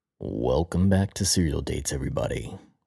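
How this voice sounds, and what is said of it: Announcer-style radio voice. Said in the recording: “putting on my radio voice”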